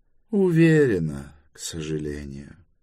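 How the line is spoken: Sad reply. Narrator (Russian): грустно ответила Брана

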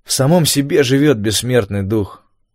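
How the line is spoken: Gloomy remark. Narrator (Russian): мрачно заметил я

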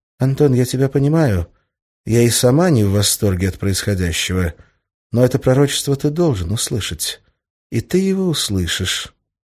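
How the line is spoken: Gloomy. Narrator (Russian): Арина мрачно посмотрела на меня, потом сказала

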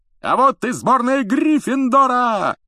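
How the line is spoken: Loud yelling. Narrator (Russian): завопил Ли Джордан

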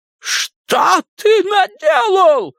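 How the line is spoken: Shrill squeal. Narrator (Russian): взвизгнул он

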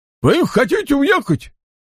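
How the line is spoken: Guard exclaiming. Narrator (Russian): воскликнул стражник

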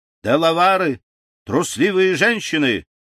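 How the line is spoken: Shouted. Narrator (Russian): крикнул он

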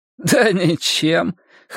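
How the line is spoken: Snorting. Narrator (Russian): хмыкнул Егор

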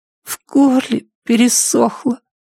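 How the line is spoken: Hoarse whisper. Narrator (Russian): хрипло прошептал Шон

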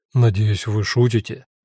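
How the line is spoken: Reproachful. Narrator (Russian): укоризненно сказал он

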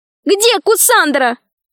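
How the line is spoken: Shouting. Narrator (Russian): закричала Алиса

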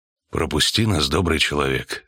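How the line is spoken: Quiet witcher. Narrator (Russian): тихо сказал ведьмак

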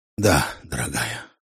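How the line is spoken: Tired. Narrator (Russian): устало кивнул Харви

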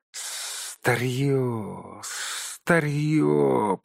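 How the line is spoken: Hiss. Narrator (Russian): прошипел он

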